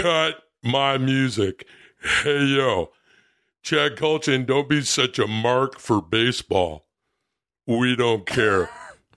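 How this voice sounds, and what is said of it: Pro wrestler impression. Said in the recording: “doing a fucking pro wrestling impersonation. ... Not just anybody. Scott Hall.”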